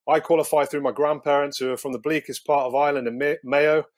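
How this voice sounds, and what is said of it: English accent. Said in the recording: “I've had abuse from the Irish lads for having an English accent.”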